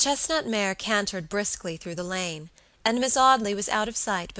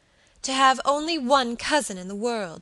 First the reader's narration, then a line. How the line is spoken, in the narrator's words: she cried passionately